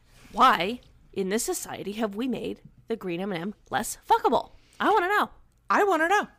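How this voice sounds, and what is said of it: Impression of Tucker Carlson. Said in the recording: “that was a perfect impression ... It was very good.”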